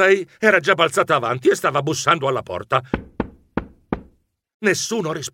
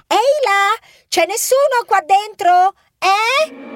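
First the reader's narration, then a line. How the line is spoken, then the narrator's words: Shrieking. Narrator (Italian): strillava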